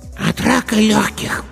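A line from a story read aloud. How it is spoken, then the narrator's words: Hoarse child's voice. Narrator (Russian): сказал хриплый детский голосок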